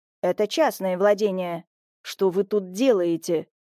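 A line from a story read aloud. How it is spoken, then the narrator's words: Angry question. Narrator (Russian): зло прищурившись, спросил Петрович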